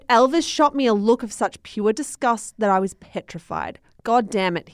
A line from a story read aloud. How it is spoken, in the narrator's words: he snapped